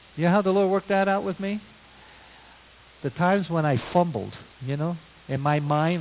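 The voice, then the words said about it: Brooklyn accent. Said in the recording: “my Brooklynese, some of you probably detect already by accent there”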